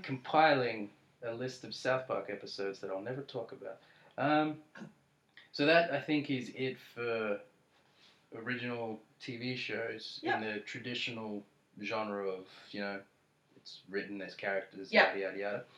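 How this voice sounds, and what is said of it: Tired, worn-out voice. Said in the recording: “I sound like a wet rag, it's because I haven't slept”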